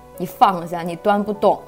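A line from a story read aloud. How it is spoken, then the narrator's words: Stern scolding. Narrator (Chinese): 我爸厉声呵斥我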